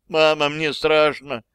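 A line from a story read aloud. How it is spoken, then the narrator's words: Whimpering child. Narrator (Russian): Летиция снова захныкала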